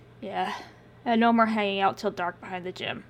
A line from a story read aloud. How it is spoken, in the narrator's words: sighed